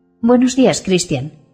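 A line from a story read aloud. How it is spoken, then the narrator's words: Slightly hostile tone. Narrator (Spanish): le dice en tono ligeramente hostil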